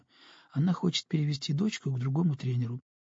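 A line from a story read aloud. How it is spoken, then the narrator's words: Barely audible. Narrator (Russian): по-прежнему едва слышно пояснила Ламзина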